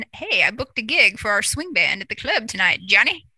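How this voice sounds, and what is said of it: Old-time swing era accent. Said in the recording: “your swing time accent”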